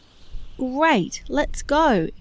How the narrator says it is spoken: exclaimed Winnie

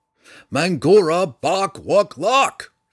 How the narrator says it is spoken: Drizzt cried again

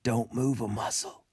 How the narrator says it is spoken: whispered again, this time with a tremor in his voice

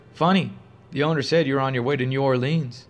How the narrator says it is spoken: She dryly retorted

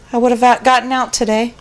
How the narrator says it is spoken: He sighed and wiped another tear away from his cheek and said

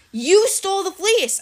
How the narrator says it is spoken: I yelled

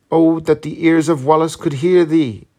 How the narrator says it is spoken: cried Lady Ruthven

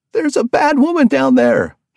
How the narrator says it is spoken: shouted

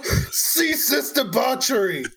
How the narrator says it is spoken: yell

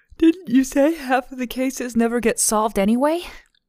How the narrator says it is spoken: Lindsay said through another yawn

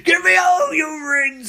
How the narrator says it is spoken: he screams

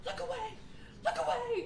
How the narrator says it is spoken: the women immediately scream and tell their children

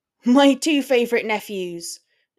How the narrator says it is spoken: George yelled in response, all the way from the back of the shop

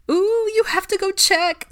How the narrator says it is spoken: squealed Hannah

